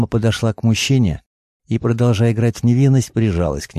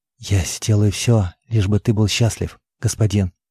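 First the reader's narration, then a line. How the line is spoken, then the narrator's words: Whispered. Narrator (Russian): шепнула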